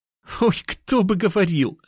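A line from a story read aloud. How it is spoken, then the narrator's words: Laughing. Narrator (Russian): Рассмеялась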